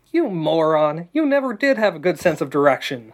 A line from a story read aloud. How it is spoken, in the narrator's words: teased, laughing again